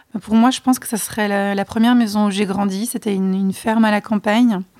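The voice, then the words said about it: Non-native accent speaking French. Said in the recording (French): “Je m'excuse d'avance pour, mon accent”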